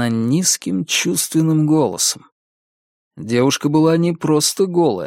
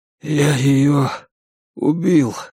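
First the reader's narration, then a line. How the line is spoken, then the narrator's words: Hoarse croak. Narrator (Russian): прохрипел я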